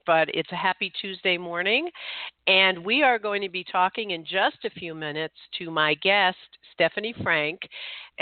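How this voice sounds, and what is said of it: Voice affected by a cold. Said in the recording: “Excuse my voice this morning. I am getting over a head cold”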